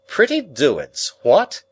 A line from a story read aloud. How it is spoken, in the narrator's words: he cried